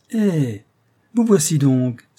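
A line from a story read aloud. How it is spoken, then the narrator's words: Warm, friendly exclamation. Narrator (French): s'écria-t-il, de sa bonne voix sympathique et loyale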